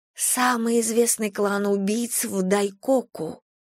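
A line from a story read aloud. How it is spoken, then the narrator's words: Reverent near-whisper. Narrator (Russian): с благоговением почти шепотом объяснила Рен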